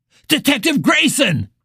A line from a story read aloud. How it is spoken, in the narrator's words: Pill screamed